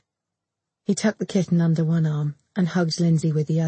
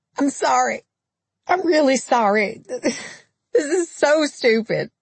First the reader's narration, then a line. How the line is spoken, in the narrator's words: Lindsay said, her cries emerging like hiccups